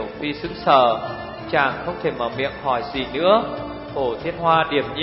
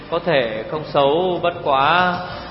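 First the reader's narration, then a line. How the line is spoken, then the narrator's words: Smiling. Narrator (Vietnamese): Tiểu Phi mỉm cười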